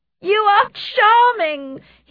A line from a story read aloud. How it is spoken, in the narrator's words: cried